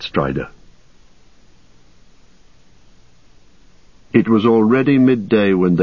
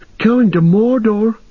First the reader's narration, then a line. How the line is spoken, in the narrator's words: cried Pippin